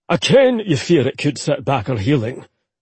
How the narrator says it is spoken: he growled

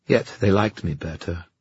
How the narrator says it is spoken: Kieran said quietly

